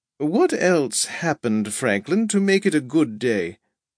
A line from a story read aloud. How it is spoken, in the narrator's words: Roosevelt said cheerily amid the laughter